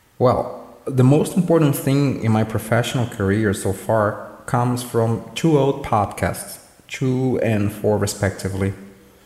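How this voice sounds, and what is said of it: Brazilian accent. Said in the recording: “Please forgive my Brazilian accent.”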